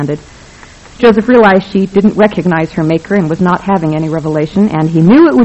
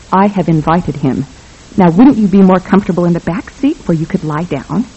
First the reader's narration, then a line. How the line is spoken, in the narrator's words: he said in a soft, urgent voice